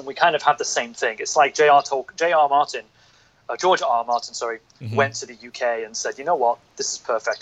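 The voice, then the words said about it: Northern English accent. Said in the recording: “my accent is not from London. I'm not from the South. I'm from the North.”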